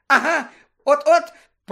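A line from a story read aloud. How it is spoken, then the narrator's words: Shrill exclamation. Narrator (Ukrainian): пронизливо вигукнув Петігру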